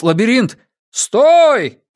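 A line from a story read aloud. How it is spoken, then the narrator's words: Shout. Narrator (Russian): крикнул кто-то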